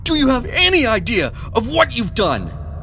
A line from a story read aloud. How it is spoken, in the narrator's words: Edward roared in a mixture of anger and panic